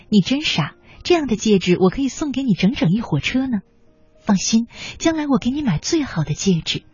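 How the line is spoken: Smiling. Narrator (Chinese): 笑着说

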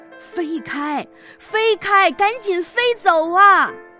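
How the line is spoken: Old man shouting while running. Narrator (Chinese): 捕鱼老人看到了，跌跌撞撞地跑过来，一边跑一边大声地向娃娃叫着

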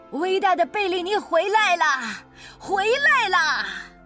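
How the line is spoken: Shouting. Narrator (Chinese): 经纪人在那喊着

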